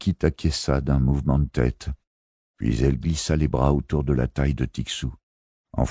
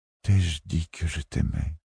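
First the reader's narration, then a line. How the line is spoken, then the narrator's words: Breathless whisper. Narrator (French): fit-elle dans un souffle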